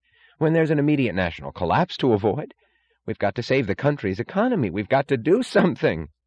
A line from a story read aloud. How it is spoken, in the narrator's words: cried Wesley Mooch